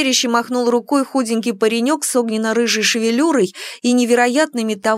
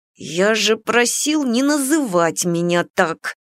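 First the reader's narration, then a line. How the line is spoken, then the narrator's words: Angry youthful hiss. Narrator (Russian): зло прошипел паренек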